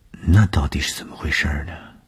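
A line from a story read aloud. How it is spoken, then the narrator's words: Embarrassed murmur. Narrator (Chinese): 东风的脸上飞过红晕，喃喃地说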